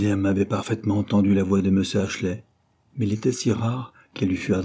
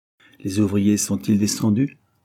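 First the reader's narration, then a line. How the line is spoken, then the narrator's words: Plain question. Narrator (French): demanda M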